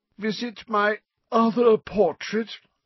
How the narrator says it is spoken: said Phineas in a reedy voice, giving a long, fake yawn

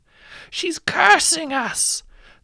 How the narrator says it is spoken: the midwife who delivered you screams over the thunder

